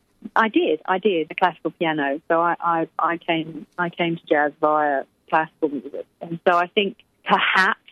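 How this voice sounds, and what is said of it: Refined English accent, clear diction. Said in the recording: “I'm English, darling ... my diction is very, very refined ... it's probably my English accent”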